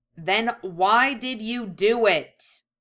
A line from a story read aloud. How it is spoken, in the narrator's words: she snapped